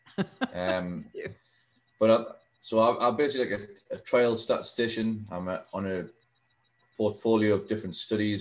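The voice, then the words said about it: Newcastle English accent. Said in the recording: “I'm based at Newcastle University in the UK ... as you can tell by the accent, it's very different to Scots. It's a bit more difficult to understand, probably.”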